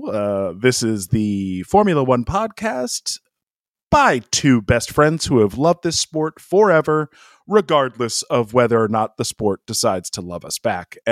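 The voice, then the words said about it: Put-on radio announcer voice. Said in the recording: “I am using my radio voice right now.”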